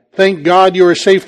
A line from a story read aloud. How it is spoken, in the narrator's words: the man said